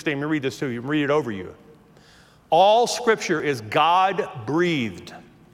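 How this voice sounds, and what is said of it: Southern American accent. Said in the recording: “There's my southern accent coming out again.”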